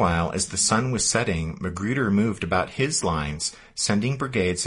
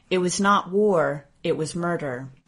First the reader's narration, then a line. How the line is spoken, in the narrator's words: he would write bitterly